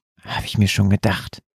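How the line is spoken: Whisper. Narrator (German): flüsterte Olli

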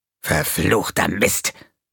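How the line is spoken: Angry hiss. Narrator (German): fauchte er

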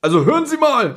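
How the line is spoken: Old man calling out. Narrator (German): rief der weißhaarige Mann

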